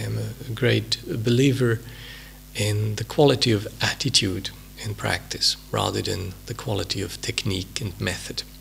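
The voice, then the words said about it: Swiss-accented English. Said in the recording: “my accent,... I'm a native of a hilly Swiss country... there's still the odd quirky thing in my way of speaking”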